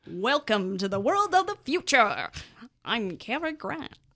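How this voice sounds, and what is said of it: Weak transatlantic old-timey radio accent. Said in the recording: “Can you give us a transatlantic accent? ... That's not a very good one. It's like that old-timey voice you hear on the radio”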